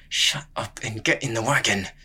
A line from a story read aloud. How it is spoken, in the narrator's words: the goatherd hissed